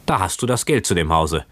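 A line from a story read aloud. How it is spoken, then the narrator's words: Exclaiming. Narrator (German): rief Lopaka aus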